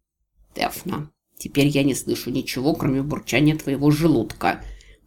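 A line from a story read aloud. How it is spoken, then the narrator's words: Hissed. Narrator (Russian): прошипел Рикки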